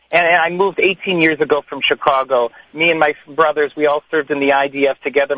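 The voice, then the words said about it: American English accent. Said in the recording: “you hear my English, I sound like an American.”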